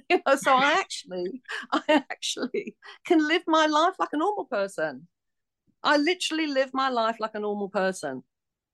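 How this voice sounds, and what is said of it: East London Cockney accent. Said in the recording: “this Cockney accent come out from the East End of London ... You have a Cockney accent”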